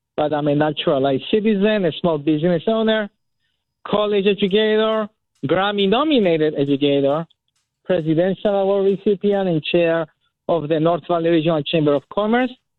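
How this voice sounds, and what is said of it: Non-native immigrant accent. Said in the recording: “As you can hear from my accent, yes, I am an immigrant”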